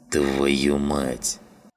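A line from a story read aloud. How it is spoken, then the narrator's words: Grumbling. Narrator (Russian): проворчал Жиган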